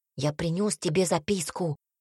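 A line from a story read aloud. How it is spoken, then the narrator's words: Whisper. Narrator (Russian): шепнул Цинта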